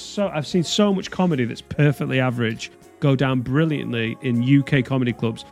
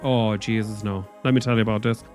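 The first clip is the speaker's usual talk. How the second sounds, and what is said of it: Put-on Southern Irish accent. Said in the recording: “I wish I was Irish... the Irish, Southern Irish accent”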